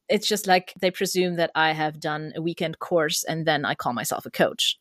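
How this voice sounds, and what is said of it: German-accented English. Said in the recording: “lovely yeah. accent.”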